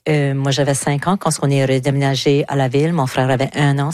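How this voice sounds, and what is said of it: Southeastern New Brunswick French accent. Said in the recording (French): “le sud-est du Nouveau-Brunswick ... Comme que tout le monde peut le constater par mon accent.”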